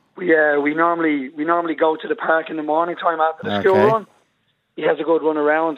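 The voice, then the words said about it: Hoarse, strained voice. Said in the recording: “my voice is gone today”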